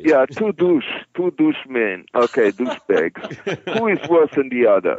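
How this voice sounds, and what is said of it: Non-native English accent. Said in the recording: “You gotta love ... accent, man. Doosh.”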